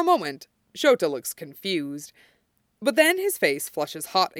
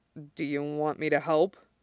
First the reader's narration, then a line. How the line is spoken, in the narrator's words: Shota mumbles